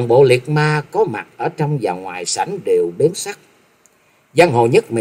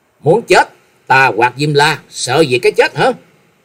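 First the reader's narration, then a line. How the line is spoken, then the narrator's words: Loud shout. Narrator (Vietnamese): quát lớn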